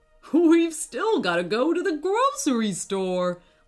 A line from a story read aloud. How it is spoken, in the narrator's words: laughed, his dad